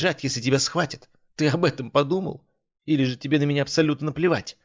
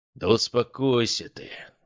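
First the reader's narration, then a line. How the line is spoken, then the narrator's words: Sighing. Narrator (Russian): вздохнул Шолохов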